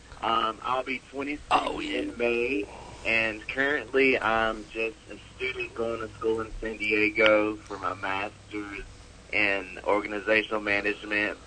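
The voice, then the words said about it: Southern US country accent. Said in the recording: “I was raised in a small, small town in northeast Georgia, so that's where this country accent is coming from”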